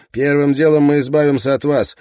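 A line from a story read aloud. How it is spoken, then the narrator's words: Sharp. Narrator (Russian): резко ответил Райленд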